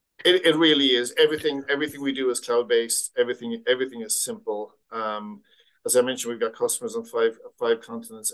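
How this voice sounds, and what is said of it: Faded Irish accent. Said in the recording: “I am Irish ... my accent is probably a little bit battered from being all over the world for a long time.”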